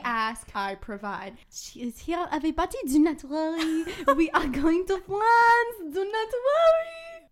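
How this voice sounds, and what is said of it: Put-on French accent. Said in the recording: “my French accent ... Like the French accent. ... transformed into another character.”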